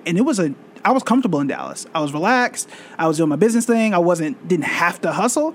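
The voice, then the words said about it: Oklahoma accent. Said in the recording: “If you can't tell by my accent, I'm not initially from here. So I'm originally from Tulsa, Oklahoma”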